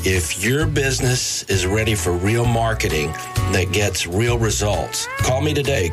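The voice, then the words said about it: Texas accent. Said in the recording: “I may have a Texas accent”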